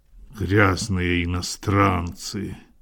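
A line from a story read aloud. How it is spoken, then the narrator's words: Muttering. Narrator (Russian): Пробормотал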